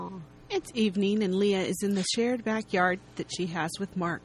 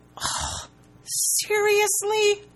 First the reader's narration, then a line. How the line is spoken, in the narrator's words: Leah cries at the sky, because she was wrong again